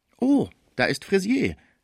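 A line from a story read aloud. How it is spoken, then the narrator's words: Unwise call. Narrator (German): rief sehr unklug Villemot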